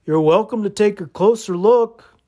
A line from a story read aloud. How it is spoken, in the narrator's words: called out